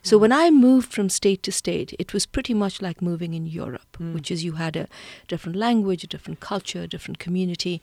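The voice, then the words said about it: Indian English accent. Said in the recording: “accent you hear, there are plenty of people in India who have my accent”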